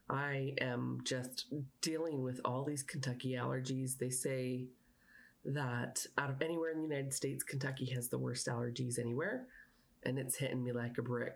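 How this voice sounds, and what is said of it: Slightly raspy voice. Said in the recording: “hear my voice is a little raspy.”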